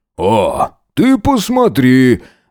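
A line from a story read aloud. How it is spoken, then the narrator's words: Uncle's loud laughter. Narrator (Russian): расхохотался дядюшка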